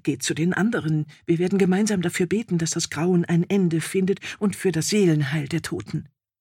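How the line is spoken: Trembling murmur. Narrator (German): Mit zittriger Stimme murmelte

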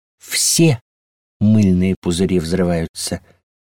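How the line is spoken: Soft reply. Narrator (Russian): мягко заметили в ответ

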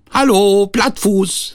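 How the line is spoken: Hare calling. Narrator (German): rief der Hase

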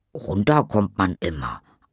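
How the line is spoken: Plain. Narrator (German): antwortet Tom

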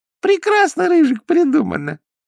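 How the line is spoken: Thin squeaky distant voice. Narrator (Russian): запищал откуда-то тоненький голосок

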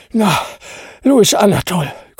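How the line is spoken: Panting. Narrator (German): keuchte

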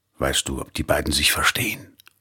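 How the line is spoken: Whispered reply. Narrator (German): flüsterte ihr Mann zurück

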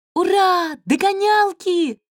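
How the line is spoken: Friendly cat squeaking. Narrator (Russian): запищал дружелюбный котик Веня

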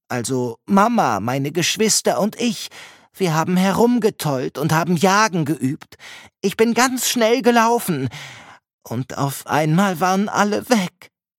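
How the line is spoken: Stammering fox. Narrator (German): Der Fuchs schaut sie aus seinen verheulten Augen an und stammelt

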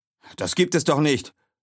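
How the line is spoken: Soldier shouting loudly. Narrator (German): ruft der Soldat laut

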